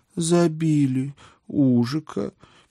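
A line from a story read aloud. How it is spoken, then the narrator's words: Sad statement. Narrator (Russian): печально констатировала моя спутница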